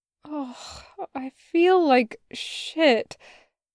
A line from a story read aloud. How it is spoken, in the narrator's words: Loop groaned